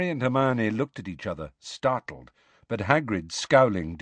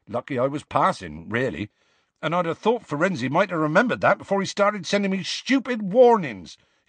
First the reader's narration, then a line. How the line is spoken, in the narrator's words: he added hotly and unexpectedly